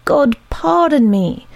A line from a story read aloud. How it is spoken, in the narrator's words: cried the detective